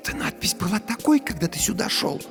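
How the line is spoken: Whispered question. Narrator (Russian): спросила Дженни шепотом

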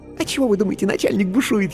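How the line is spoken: Giggling whisper. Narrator (Russian): хихикнув, шепнула она

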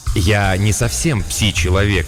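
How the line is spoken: Plain. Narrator (Russian): ответил Кроуден

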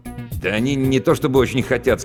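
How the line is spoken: Plain. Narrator (Russian): сказал я

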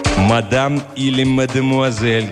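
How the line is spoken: Menacing monster's voice. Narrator (Russian): грозно обратилась к Магде главное чудище

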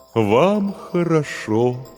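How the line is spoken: Mournful drone. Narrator (Russian): заунывным голосом произнес терем

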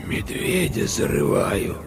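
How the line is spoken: Girl's startling hoarse voice. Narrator (Russian): вдруг ответила девочка таким хриплым голосом, что капитан вздрогнул

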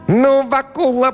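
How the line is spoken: Squeaky voice. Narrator (Russian): пропищал черт

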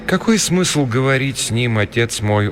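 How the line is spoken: Gloomy. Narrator (Russian): уныло проговорила Рита

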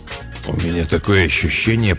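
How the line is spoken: Mumbled aloud. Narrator (Russian): пробормотал он вслух

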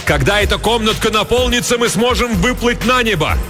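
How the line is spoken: Shouting. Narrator (Russian): Хилала закричал

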